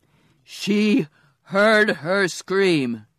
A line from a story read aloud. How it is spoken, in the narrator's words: roared